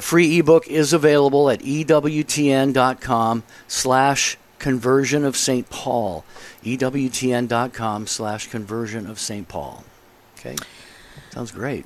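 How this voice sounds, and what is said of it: Slightly raspy, soothing radio voice. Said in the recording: “You have such a soothing voice ... It's a little raspy today for some reason ... it's a great, strong radio voice”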